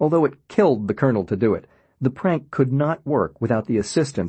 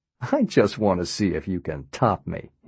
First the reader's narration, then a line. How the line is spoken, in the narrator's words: he said, laughing